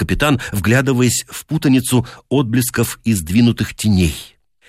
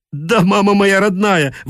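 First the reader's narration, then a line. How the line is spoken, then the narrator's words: Desperate hoarse shout. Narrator (Russian): в отчаянии осипшим голосом закричал Дед Мороз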